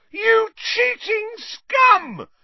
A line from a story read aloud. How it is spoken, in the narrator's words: Lee Jordan was howling into the megaphone